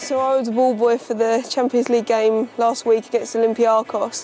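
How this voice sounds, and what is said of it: British accent. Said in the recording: “the British accent”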